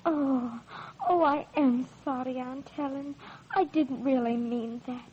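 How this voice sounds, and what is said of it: English accent. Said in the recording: “you do have what we call an English accent. And it does sound strange to American ears.”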